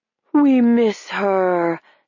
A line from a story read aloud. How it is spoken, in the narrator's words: said one of the faces, the voice a little familiar, but disped into a weird, ghostly, echoing moan